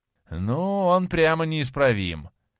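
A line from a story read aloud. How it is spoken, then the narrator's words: Exclaimed. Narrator (Russian): воскликнул Дориан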